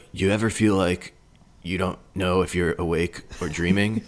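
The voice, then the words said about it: Imitates another person's voice. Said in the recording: “my Keanu impression.”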